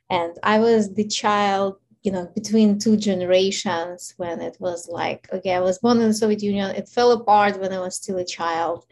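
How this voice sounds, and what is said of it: Ukrainian accent. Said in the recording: “So obviously you hear my accent. So I'm originally from Ukraine”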